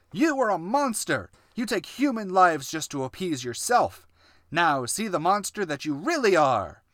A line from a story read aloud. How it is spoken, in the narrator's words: Eric yelled